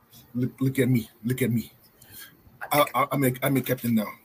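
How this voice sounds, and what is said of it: Put-on African accent, movie pirate. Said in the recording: “the racist African accent ... I'm only doing what they did in the movie”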